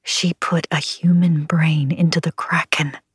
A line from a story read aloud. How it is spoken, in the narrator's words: I whispered